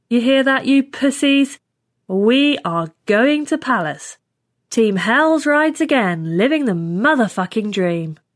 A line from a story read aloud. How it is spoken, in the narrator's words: said loudly